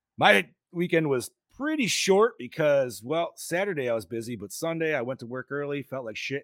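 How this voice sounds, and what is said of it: Hoarse voice. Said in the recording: “sounds a little hoarse ... I'm a lot of hoarse.”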